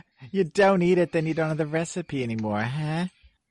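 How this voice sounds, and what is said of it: Archie Bunker character impression. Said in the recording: “Thank you, Archie Bunker. ... your Woody Allen doing an Archie Bunker impression.”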